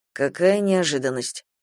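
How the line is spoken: Mutter. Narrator (Russian): пробормотал Паламет

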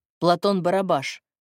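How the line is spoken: Cold pronouncement. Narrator (Russian): изрек Игорь холодно

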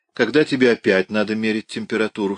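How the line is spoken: Plain question. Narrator (Russian): спросил он

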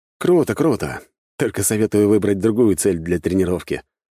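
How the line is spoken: Restrained wry snort. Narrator (Russian): хмыкнул я, с трудом сдерживая порыв клювика разорвать паука на кусочки и кайман вместе с ним

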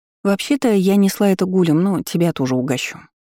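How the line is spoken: Sighing. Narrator (Russian): вздохнув, сказала

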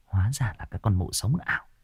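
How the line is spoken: Muttering. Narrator (Vietnamese): chị này lẩm bẩm

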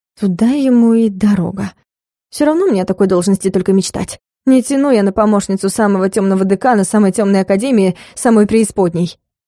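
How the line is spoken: Nervous, uncertain. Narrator (Russian): Я нервно поёжилась и неуверенно произнесла

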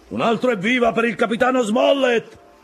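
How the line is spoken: Shouted. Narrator (Italian): gridò Long John

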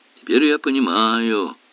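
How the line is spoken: Groaned. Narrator (Russian): простонал Эллери

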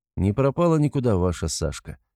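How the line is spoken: Very calm. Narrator (Russian): отвечаю максимально спокойным тоном

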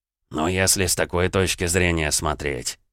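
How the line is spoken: Village elder muttering. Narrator (Russian): пробормотал староста

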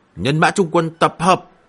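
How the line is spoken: Loud shout, two voices. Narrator (Vietnamese): Ngô Phong và Hành Quảng Linh cùng nhau cao giọng hét lên

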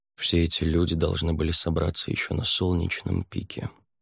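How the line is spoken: Quiet, calm. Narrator (Russian): тихо сказал мужчина, показавшийся Савьеру самым уравновешенным из всех

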